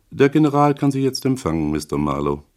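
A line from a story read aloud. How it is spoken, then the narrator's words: Expressionless voice. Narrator (German): Der Butler sagte mit ausdrucksloser Stimme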